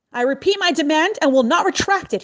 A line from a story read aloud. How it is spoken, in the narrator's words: he shouted